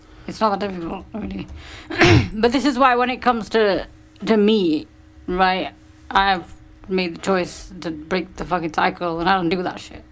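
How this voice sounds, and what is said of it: Croaky throat, near vocal fry. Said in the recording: “My throat is all croaky. I've got vocal fry going on. ... That's not vocal fry, that's something else.”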